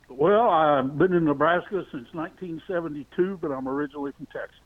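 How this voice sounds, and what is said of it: Texas accent. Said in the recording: “You have a fantastic accent. What part of the country are you from? ... I can't lose it, man. Listen, it just doesn't go away.”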